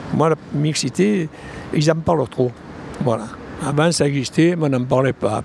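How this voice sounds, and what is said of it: Marseille French accent. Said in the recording (French): “mon accent marseillais”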